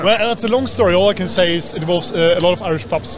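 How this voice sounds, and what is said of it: English accent. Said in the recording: “how come you have this English accent?”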